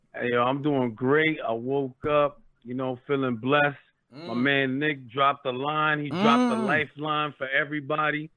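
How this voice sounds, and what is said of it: New York accent. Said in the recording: “calling from the Bronx, so you know you're gonna hear the New York accent”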